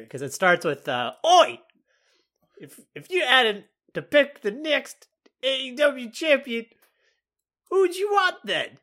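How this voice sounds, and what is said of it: Good put-on Australian accent. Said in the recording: “You did a good Australian accent. That was pretty good.”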